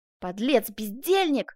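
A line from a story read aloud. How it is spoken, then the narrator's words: Yelling. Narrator (Russian): заорал Бенвенуто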